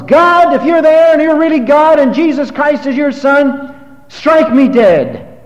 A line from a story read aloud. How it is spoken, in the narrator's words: screamed at the top of his lungs